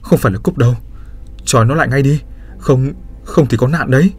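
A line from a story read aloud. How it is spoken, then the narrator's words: Frightened, pained, trembling voice. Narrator (Vietnamese): Hằng sợ hãi, nhăn nhó, mồm run run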